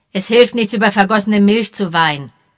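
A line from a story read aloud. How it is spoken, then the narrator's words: Sharp. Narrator (German): sagte er scharf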